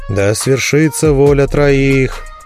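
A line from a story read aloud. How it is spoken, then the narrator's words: Bored novice announcing. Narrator (Russian): Скучающим голосом возвестил послушник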